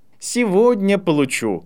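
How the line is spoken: Laughing. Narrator (Russian): рассмеялся Драко

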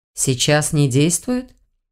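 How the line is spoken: Muffled question. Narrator (Russian): глухо спросил блондин

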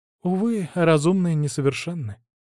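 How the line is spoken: Sighing. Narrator (Russian): вздохнула она

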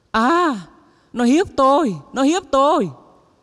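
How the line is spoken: Sudden scream. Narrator (Vietnamese): bỗng nhiên bà ấy hét lên

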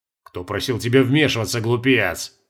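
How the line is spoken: Scoffing snort. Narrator (Russian): хмыкнул Стаза

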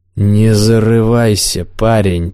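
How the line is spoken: Growled, real or feigned. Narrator (Russian): прорычал Корвиль, явно или наигранно

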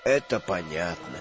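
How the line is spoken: Mumbling. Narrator (Russian): бормотал Дамблдор

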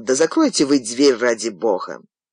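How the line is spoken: Irritated grumble. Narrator (Russian): Голос из темноты раздраженно проворчал

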